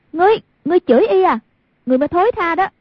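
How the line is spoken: Furious shout. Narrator (Vietnamese): Hoàng Dung cả giận, quát

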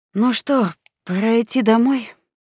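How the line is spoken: Sighing. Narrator (Russian): вздохнув, сказал

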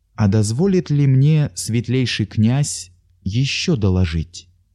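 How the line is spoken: Timid speech. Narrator (Russian): заговорил он робко

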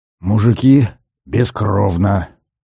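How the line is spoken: Breathed out. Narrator (Russian): выдохнул Глеб

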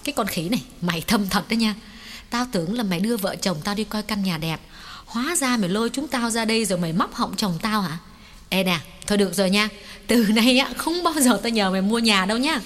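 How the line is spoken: Smiling scolding. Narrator (Vietnamese): Mỹ Khanh mỉm cười rồi quay sang mắng Hoài

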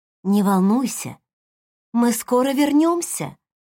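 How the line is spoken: Gentle reassurance. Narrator (Russian): заверила Линда, ласково улыбнулась

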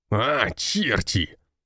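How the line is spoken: Angry growl. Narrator (Russian): рычал отец

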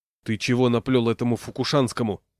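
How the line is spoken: Displeased question. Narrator (Russian): недовольным голосом спросил

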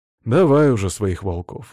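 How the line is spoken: Sighing again. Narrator (Russian): вздохнул снова

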